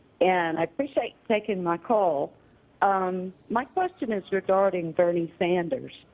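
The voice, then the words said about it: Georgia accent. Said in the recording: “that accent coming all the way from Georgia”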